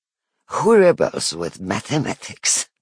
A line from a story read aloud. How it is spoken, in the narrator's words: She laughs